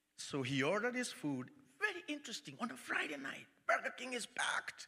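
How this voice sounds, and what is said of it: Kenyan accent. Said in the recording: “I'm Kenyan. I have an accent.”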